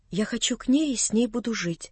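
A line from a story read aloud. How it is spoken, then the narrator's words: Timid. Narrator (Russian): начала опять Нелли, робко взглянув на меня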